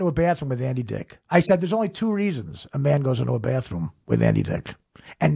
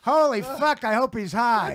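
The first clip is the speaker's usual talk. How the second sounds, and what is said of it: Imitates another person's voice. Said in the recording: “great impression of Norm”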